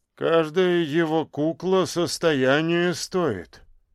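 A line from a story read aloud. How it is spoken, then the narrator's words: Busy man's mumble. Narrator (Russian): очень занятой директор по фамилии Цоколь пробурчал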